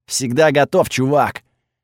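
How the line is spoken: Booming voice in head. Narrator (Russian): прогудел его голос у меня в голове

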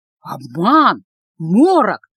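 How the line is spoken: Crowd whispering. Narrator (Russian): шептались в толпе

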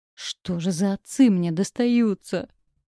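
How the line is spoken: Groaning. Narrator (Russian): простонала

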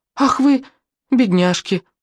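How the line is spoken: Old woman exclaiming. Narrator (Russian): воскликнула какая-то бабулька

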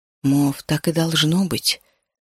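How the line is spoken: Quiet. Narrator (Russian): тихо заговорил я

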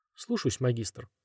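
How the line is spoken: Quiet. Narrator (Russian): тихо сказал тот

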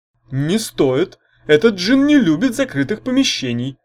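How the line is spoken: Ghoul howling. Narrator (Russian): взвыл вурдалак

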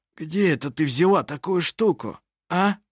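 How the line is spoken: Hoarse voice. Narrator (Russian): Хриплым голосом произнес он

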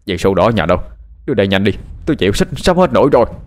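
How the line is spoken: Yelling. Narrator (Vietnamese): Thằng Linh hét lên

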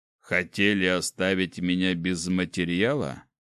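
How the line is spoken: Snorting wizard. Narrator (Russian): хмыкнул маг

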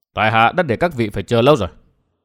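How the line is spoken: Cold. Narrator (Vietnamese): Vân Thiên Nhạc lạnh lùng nói

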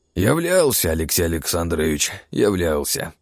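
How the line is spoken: Old man sighing. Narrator (Russian): вздохнул старик

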